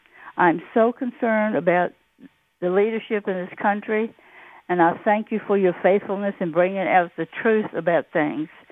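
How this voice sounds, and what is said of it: Classic Virginia accent. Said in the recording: “I love your accent, by the way. You have that classic Virginia accent that's so beautiful.”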